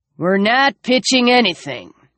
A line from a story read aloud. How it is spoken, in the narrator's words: the older guy rumbled